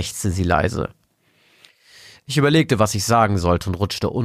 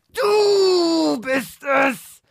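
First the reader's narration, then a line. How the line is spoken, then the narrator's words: Frantic scream. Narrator (German): schrie sie wie von Sinn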